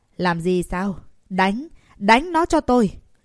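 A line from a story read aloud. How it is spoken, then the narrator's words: Shout. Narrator (Vietnamese): Lục Quan Hành hét lên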